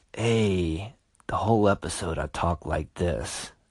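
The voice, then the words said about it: Smooth 70s R&B Quiet Storm voice. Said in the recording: “do my Quiet Storm voice ... 70s R&B”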